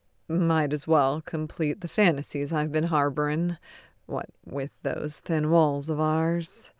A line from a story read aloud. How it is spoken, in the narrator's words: Chuckling, Ted says